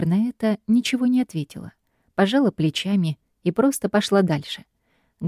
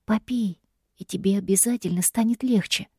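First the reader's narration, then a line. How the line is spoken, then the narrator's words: Gentle whisper. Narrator (Russian): шептал он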